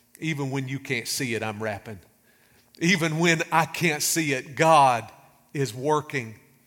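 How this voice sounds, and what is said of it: American country accent. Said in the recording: “country accent”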